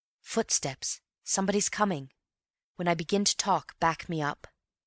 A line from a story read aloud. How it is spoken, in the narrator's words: whispered in his ear